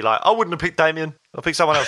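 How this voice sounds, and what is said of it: Impression of a friend. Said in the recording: “that's a great impression of Pip, wasn't it? ... It was brilliant”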